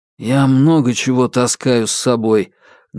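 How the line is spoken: Muffled, unperturbed. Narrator (Russian): глухо, но невозмутимо отозвался из-под шарфа Корсаков

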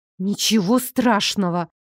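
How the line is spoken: Strained, forced out. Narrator (Russian): Наконец-то выдавила из себя

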